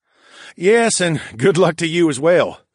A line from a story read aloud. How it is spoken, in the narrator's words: the merman chuckled